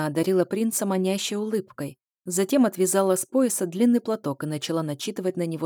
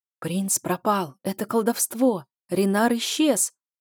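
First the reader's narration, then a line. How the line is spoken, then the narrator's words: Whispering crowd. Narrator (Russian): побежал шепот по рядам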